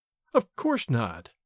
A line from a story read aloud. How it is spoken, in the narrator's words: I replied quietly